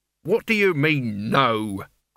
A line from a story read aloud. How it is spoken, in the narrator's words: growled Albert